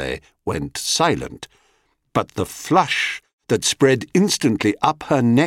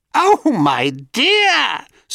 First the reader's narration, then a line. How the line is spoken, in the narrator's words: screeched the crone